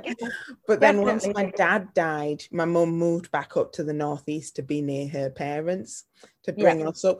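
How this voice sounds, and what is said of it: Yorkshire English accent. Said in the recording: “I am a Yorkshire lass... you can hear it in your accent.”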